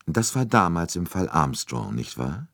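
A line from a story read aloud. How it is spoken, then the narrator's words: Calm. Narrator (German): sagte Poirot ruhig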